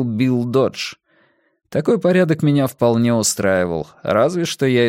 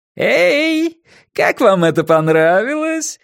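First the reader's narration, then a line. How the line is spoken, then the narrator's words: Asked, then laughed loudly. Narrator (Russian): спросил Дикий Билл и громко, как ребенок на карнавале, расхохотался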